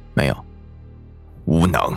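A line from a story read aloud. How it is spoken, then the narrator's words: Flat, indifferent reply. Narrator (Chinese): 莫连锦淡淡回道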